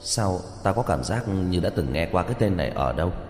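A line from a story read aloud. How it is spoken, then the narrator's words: Thoughtful muttering. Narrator (Vietnamese): Tiêu Dật Vân lâm vào suy tư, ngay sau đó lẩm bẩm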